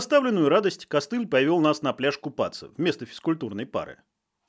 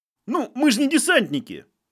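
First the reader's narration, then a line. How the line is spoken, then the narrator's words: Squeaky voice. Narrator (Russian): пискнул кто-то из строя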